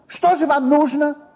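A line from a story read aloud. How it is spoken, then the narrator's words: Snapping. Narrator (Russian): огрызнулся на него председатель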